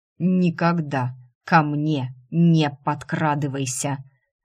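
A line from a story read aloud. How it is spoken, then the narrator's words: Clipped, measured. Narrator (Russian): отчеканил пожиратель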